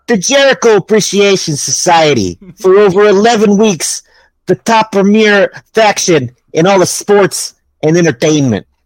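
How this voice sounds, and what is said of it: Imitates another person's voice. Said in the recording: “my impersonation”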